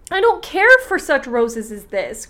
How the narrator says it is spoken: cried Marigold

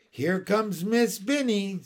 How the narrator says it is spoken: called out

